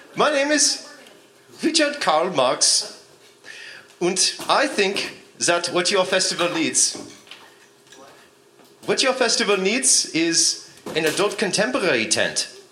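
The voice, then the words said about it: Put-on foreign accent. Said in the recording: “I need to get my accent right.”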